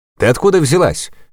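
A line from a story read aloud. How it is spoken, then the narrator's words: Drunken shout. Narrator (Russian): закричал один из них, явно перебравший дешевого пойла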